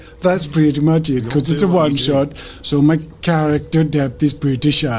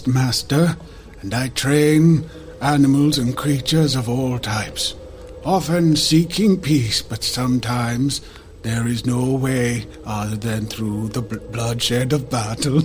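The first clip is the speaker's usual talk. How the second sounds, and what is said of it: Speaks in a put-on accent. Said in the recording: “I'm sticking with the accent.”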